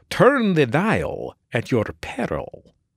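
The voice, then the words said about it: Dracula-style vampire voice. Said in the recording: “My instruction said to do that in a Dracula voice”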